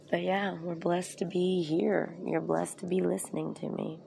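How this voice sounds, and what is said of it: Worn voice cutting in and out. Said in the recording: “I'm a little bit run down, a little bit from allergies and swollen eyes and all that. ... My voice is in and out”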